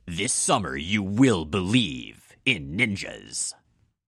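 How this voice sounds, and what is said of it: Resonant movie-trailer announcer voice. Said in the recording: “I said it in my convincing movie voice ... just because it's resonant”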